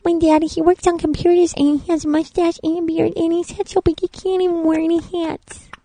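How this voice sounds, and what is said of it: Adult putting on a baby voice. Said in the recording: “Do they do the baby voices? ... Can you do a baby voice? ... But can you do a baby voice?”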